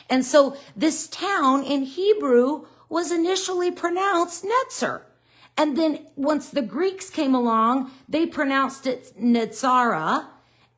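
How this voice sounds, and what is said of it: Southern US accent. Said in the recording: “I'm not saying it right. I'm saying it with a Dene Southern accent who doesn't know Hebrew or Greek”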